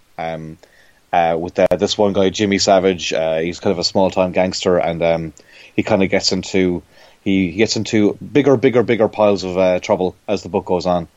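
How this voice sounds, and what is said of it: Irish accent. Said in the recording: “I'm sure your listeners can tell I have an Irish accent.”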